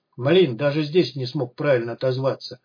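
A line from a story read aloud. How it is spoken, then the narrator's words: Grumbling. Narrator (Russian): проворчал Костя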